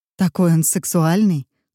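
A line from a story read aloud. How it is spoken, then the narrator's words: Plain. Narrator (Russian): сказала Дженнифер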